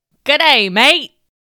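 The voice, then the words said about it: Put-on Australian accent. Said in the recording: “Sometimes I can do an Australian accent. From down under in Australia.”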